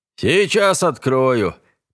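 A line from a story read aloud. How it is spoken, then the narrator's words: Grumbling mentor. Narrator (Russian): проворчал наставник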